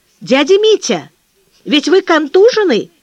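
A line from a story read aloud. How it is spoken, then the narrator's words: Shout. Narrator (Russian): закричал Сережа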